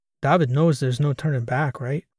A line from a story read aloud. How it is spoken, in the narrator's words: Oscar said